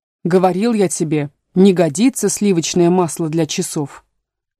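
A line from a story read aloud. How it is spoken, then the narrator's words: Angry. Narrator (Russian): добавил он, сердито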